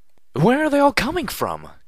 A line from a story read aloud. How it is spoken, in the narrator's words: cried out Velvet Remedy